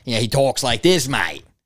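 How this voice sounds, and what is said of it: Put-on Australian accent. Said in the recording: “he's like very loud. And he has like the Australian accent.”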